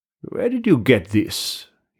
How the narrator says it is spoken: he said

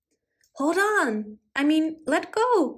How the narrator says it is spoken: cried Puss in Boots Jr

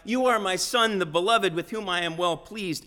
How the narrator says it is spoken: the one who tore open the skies at Jesus' baptism to shout out

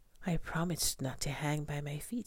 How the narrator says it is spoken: Stella Luna sighed

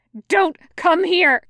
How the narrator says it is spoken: he screams

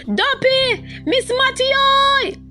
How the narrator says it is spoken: Rufus shouted

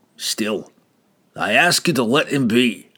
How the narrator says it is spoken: Brunner growled

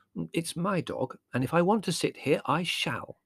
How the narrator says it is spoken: said Mother firmly

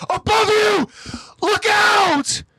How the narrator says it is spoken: A scout from on top of the wall screams down to Hanji and the others

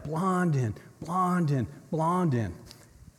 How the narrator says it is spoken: They began to shout

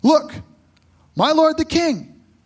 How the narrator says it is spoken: Gehazi exclaimed

